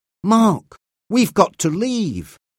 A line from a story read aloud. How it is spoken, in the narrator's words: Reggie said nervously